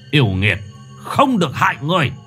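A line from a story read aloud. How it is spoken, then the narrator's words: Shout. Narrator (Vietnamese): Thầy Hậu quát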